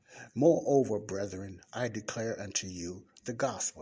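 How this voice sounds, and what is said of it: Slow deliberate reading. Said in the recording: “I'm going to read it slowly.”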